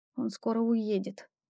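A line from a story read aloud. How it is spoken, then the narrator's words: Muttering not quietly enough. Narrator (Russian): пробормотала я себе под нос, но недостаточно тихо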